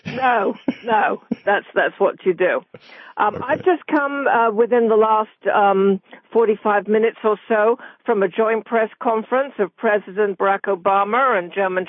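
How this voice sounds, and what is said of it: British accent. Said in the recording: “speak with a British accent ... learn to talk like you”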